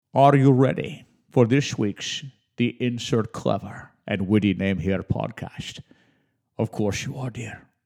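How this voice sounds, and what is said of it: Scottish-accented James Bond impression. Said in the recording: “That's my my Sean Connery as James Bond, 007. ... I don't think my Sean Connery is half bad.”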